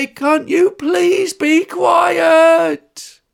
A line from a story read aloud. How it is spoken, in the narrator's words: Mum would say